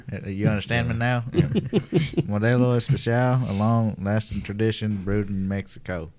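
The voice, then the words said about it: Put-on Texan accent. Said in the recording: “that's a pretty good Texan accent ... he doesn't normally talk like that, so it's actually really good”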